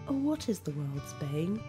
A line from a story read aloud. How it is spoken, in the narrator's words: The sun was laughing sweetly